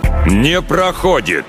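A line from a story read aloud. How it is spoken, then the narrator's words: Thundering. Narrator (Russian): прогремел он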